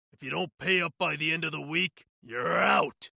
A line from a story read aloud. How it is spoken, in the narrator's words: he bellowed, his voice echoing in the small apartment